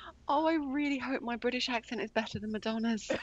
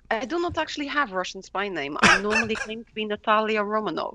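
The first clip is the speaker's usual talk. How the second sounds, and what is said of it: Put-on Russian accent. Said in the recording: “I can do Russian... talking like this”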